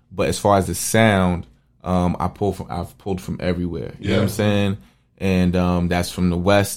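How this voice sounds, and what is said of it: New York accent. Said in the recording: “I'm from New York ... you listen to my accent, okay, you can probably get it.”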